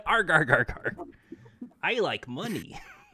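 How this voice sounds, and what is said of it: Popeye voice sounding like Mr. Krabs. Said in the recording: “Why did your Popeye sound like Mr. Krabs?”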